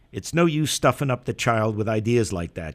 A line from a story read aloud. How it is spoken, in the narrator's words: she said sharply